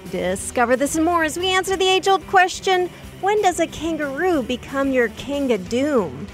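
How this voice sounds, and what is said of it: Announcer-style radio voice. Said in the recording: “that was your radio voice. That was amazing.”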